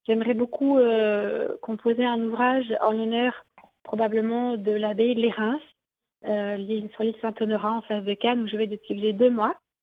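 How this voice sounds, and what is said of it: Slight southern French accent. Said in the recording (French): “notre hôte qui vient du sud. On a un petit accent, on entend.”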